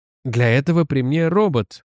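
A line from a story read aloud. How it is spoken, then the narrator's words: Gloomy interjection. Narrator (Russian): уныло вставил Настойч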